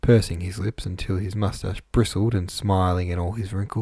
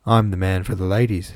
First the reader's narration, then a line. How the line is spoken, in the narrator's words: said Mr